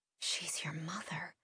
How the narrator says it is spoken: I whispered

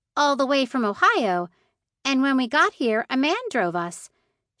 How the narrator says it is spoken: Ruthie exclaimed

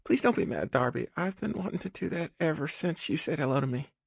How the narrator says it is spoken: she pleaded

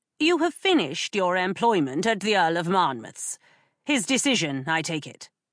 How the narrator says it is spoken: said Miss Clark coldly

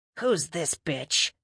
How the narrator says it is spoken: muttered Gonal

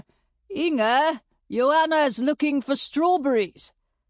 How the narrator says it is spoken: Munk called out to his sister

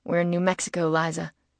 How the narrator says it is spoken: said, chuckling

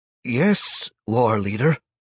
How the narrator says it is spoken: Ugo replied uneasily

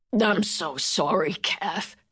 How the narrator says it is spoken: he rasped

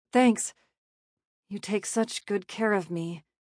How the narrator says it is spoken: she murmured

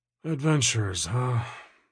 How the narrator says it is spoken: He sighed

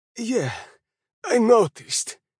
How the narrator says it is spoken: groaned, still spitting out blood

